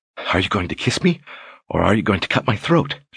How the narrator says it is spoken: She asked, still panting

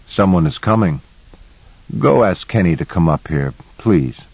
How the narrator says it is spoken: in a casual tone said

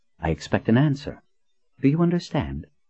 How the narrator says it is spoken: she said in a quiet, authoritative tone

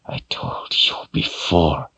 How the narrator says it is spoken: she hissed through gritted teeth

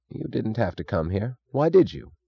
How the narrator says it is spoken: said Taggart sullenly

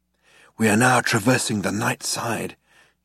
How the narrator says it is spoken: he said in a hushed voice

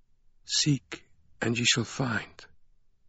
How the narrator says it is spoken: the voice of the silver-haired woman kept whispering

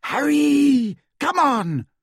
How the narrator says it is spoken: screamed Hermione

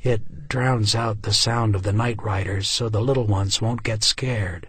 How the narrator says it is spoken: murmured

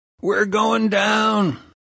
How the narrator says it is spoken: as I came out of my stoned sleep, thinking there was a serious problem with the plane, I shouted

